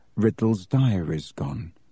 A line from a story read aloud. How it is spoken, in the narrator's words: he said in an undertone to Ron